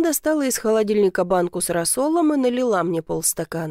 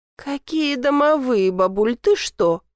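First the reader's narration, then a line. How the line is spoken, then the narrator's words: Fake laugh. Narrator (Russian): фальшиво рассмеялась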